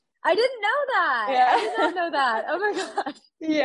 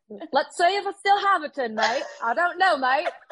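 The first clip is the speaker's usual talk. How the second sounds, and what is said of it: Poor put-on Australian accent. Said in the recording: “your Australian accent ... my terrible accent”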